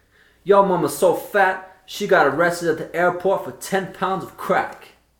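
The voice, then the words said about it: Put-on Southern Black American accent. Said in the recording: “Can I do an American accent? ... a black American accent from the south.”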